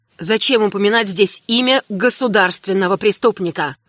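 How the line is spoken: Irritated inquiry. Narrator (Russian): раздраженно осведомился император

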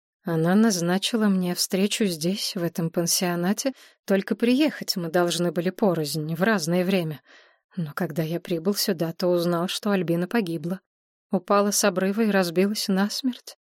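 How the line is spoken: Dejected voice. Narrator (Russian): упавшим голосом сказал Андрей Станиславович

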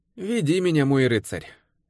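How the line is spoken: Sighing. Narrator (Russian): Девушка вздохнула

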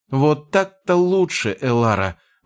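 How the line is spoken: Exclaimed. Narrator (Russian): воскликнула Леандри

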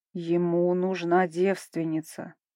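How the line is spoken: Angry growl, ruler. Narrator (Russian): гневно блеснув глазами, прорычал владыка

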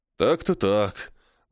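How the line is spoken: Sighed. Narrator (Russian): Вздохнул

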